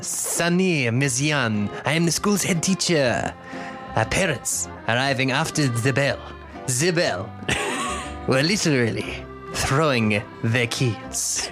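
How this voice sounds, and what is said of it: Woman's French accent. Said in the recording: “Can you do in a woman's French accent?”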